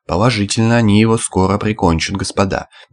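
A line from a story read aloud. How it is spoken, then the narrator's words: Detached, impassive tone. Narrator (Russian): бесстрастным тоном стороннего наблюдателя произнес Стахеев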